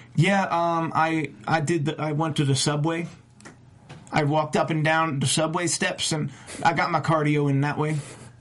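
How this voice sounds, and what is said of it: Poor impression of wrestler ZZ. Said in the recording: “terrible ZZ impression ... I thought he was doing an impression of a hobo”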